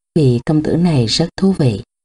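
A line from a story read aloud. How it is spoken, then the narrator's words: Soft smiling woman. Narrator (Vietnamese): nàng lại khẽ mỉm cười nói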